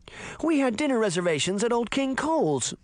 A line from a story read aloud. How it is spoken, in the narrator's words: Beauty cried